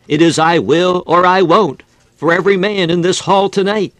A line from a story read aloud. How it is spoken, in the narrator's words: Moody, overcome with tenderness and compassion, burst into broken, tearful words, exclaiming